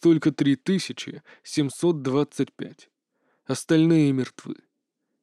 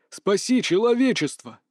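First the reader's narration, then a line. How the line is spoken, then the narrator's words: Inner silent shout. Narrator (Russian): закричал Фан Минсы внутри своего сознания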